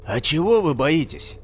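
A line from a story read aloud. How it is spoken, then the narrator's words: Hoarse. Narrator (Russian): хрипло сказал Вэй Стивенс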